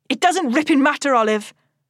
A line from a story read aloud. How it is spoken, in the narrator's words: Selin snaps